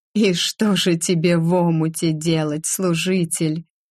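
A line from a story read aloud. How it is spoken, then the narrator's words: Question after laughing. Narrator (Russian): Отсмеявшись спросила я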